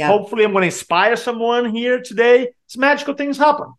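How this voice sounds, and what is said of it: Speaks with a foreign accent. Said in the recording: “I have an accent”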